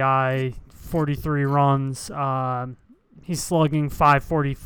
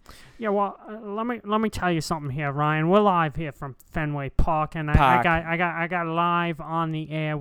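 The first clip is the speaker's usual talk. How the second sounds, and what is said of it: Put-on Boston accent. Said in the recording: “the Boston accent”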